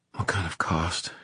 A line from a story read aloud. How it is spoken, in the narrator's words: She whispered